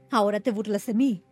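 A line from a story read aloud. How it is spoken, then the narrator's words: Plain cleric. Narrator (Spanish): dijo el clérigo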